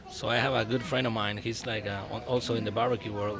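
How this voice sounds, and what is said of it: Slight foreign accent. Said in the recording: “my accent, you know, it's like, I don't feel it... If a gringo tried to sell me a chimichurri, I'm going to doubt. But a guy with your accent... I don't know if you notice I have an accent, right?... It's kind of... Little. Yeah, it's a little.”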